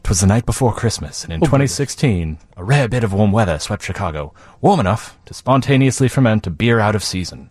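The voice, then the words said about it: Put-on Masterpiece Theater narrator accent. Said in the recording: “Is that a Belgian accent? ... It's a Chicago accent. ... No, I was thinking like Masterpiece Theater. ... insulting their accent that way.”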